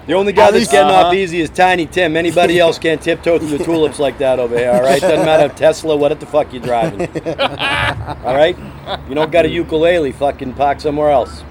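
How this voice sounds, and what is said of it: Thick Boston accent. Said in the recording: “New Yorker accent ... Nah, I'm from Boston. Boston. It's different.”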